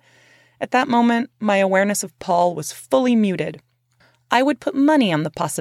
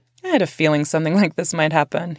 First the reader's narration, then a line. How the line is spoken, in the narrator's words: he said